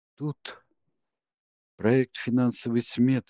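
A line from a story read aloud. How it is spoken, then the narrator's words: Weak small voice. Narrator (Russian): слабым голоском произнесла Амалия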